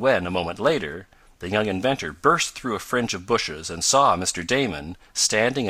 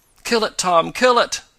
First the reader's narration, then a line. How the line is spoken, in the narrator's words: begged the eccentric man